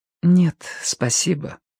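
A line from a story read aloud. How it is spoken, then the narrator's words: Quiet. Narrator (Russian): ответила она тихо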